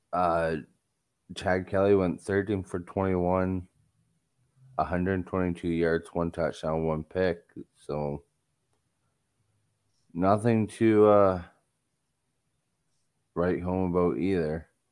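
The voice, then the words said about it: Bored, unenthusiastic voice. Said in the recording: “You guys can probably tell in my voice that I'm very bored even talking about this game.”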